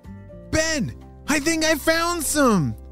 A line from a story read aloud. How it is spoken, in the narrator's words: shouted Anna